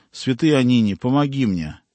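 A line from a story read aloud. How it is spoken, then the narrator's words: Exclaimed. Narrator (Russian): Женщина воскликнула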